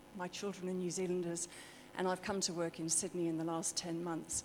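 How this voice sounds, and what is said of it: British accent. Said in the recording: “from my accent, originally British”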